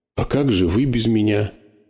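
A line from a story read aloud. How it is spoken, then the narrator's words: Frightened question. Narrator (Russian): испуганно спросил он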